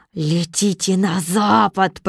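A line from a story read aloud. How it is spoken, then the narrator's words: Growling sorceress. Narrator (Russian): прорычала волшебница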